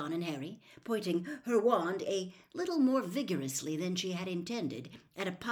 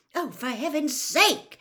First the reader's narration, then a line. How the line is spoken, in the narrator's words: she snapped